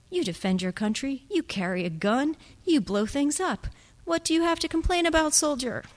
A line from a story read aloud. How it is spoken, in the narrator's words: Kit laughed with his mouth full